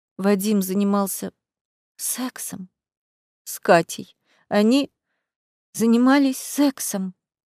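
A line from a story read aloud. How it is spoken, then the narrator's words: Tearful strained voice. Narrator (Russian): Со слезами в голосе выдавила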